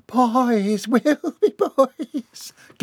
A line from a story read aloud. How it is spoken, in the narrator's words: giggled the deluded matriarch